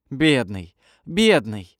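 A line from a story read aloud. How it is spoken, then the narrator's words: Anguished exclamation. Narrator (Russian): воскликнула со страданием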